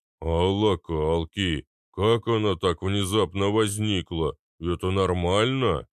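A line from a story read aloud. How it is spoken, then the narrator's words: Booming drone. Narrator (Russian): прогудел Арнольд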